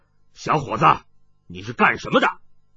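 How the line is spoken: Stern harsh voice. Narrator (Chinese): 冷一峰厉声道

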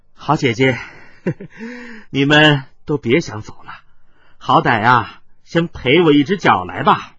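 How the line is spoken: Strained laughing speech. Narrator (Chinese): 姚四妹挣扎着笑道

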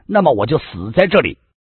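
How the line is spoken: Loud, immediate. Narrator (Chinese): 王小姐连想都不想，立刻大声的说道

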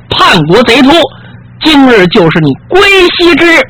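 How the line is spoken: Roaring. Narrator (Chinese): 杨天慈大吼一声

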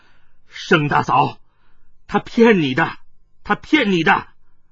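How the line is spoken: Stern. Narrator (Chinese): 黑星天厉声说道

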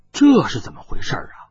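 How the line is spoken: Muttering to oneself. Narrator (Chinese): 有人影喃喃自语道

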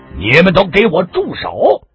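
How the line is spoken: Commanding loud voice. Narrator (Chinese): 一个人用一种极有威严的大声说道

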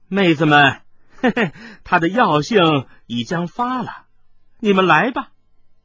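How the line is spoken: Light laugh. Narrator (Chinese): 华府美妇突然轻笑道

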